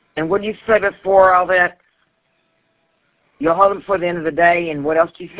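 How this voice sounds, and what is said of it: Strong country Texas accent. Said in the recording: “You like my accent? ... me being from Texas, everybody says I've got that accent ... I know it's very strong. It's very country”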